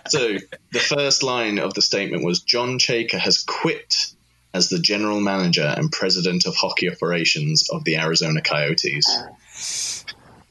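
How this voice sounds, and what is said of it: Fancy-sounding accent. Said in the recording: “the fancy accent.”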